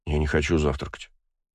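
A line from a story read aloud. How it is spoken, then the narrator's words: Grumbled. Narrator (Russian): буркнул Астарот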